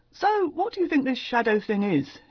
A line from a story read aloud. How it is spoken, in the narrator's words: asked cheerfully enough